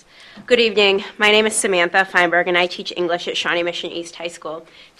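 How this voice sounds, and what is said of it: Loud projecting teacher voice. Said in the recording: “I'm going to lower this. Can I lower this? I'm short. Okay, never mind. I'll just use my teacher voice.”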